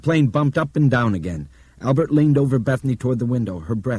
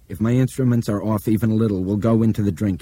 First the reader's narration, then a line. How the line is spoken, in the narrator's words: he said flatly